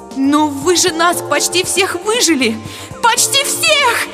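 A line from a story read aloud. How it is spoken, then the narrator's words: Shrieking aloud. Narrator (Russian): завизжала я вслух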